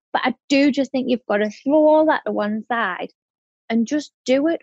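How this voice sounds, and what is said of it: Broad regional accent, fast speech. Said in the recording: “my accent ... how broad it is and how fast I talk”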